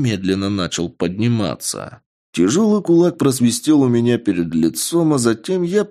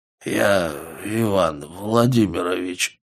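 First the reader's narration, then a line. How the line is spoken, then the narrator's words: Dazed mutter. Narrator (Russian): пробормотал видимо приходя в себя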